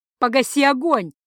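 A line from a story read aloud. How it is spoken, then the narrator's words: Shouting over noise. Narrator (Russian): закричал, перекрывая шум Тацу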